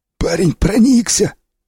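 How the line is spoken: Hoarse wheeze. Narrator (Russian): просипел сиплый

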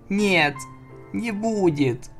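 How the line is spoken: Tearful squeak. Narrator (Russian): пискнула сквозь слезы Флаттершай

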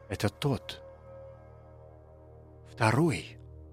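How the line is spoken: Breathless whisper. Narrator (Russian): Затаив дыхание, прошептал Чарльз

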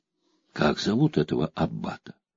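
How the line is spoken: Whispered question. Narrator (Russian): Она спросила шепотом

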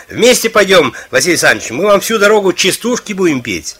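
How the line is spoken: Playful shout. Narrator (Russian): кто-то из них озорно крикнул

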